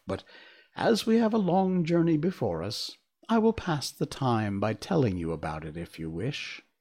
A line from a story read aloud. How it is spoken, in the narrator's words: answered the king with a winged laugh